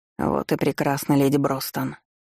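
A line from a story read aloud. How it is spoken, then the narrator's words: Weary investigator. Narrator (Russian): устало произнёс дознаватель, потому что подобного рода беседу мы вели уже около часа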